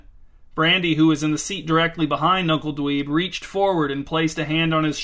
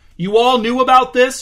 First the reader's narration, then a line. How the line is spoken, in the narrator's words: shouted Uncle Dweeb